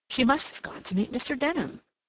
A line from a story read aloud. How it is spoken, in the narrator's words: Cassandra exclaimed